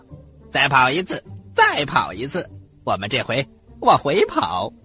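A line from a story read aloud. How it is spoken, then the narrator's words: Loud. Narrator (Chinese): 他大声的对刺猬妻子说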